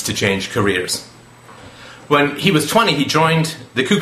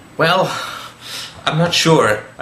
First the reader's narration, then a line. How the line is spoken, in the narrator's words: said uneasily